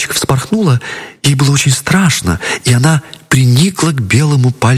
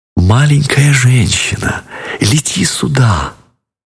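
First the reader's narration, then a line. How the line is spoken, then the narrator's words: Very tender whisper. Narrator (Russian): нежно-нежно шепнула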